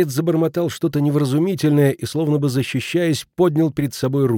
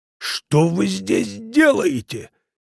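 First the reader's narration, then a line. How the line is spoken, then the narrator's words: Angry bark. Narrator (Russian): сердито рявкнул на него доктор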